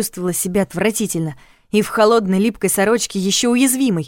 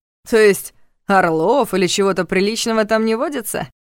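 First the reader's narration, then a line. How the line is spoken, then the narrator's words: Mocking sarcasm. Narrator (Russian): Насмешливо съязвил Лоран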